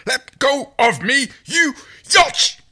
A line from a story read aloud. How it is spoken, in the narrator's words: The Hynerian spluttered